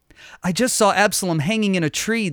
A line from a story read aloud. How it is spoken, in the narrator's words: the man cried